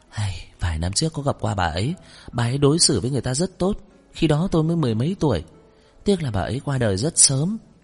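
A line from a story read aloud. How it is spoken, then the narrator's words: Sighing. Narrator (Vietnamese): Trần Phi Lệ thở dài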